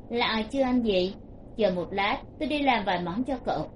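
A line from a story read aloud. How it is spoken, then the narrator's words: Soft, smiling voice. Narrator (Vietnamese): Từ Thiếu Khiêm mỉm cười một cái, thấp giọng nói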